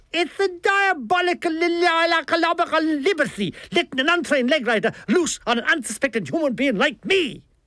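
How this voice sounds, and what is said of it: Theatrical Dublin Irish accent. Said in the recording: “It was a Dublin accent, charged with theatrical innuendo. Like all Irish, he could make good morning sound like a declaration of war”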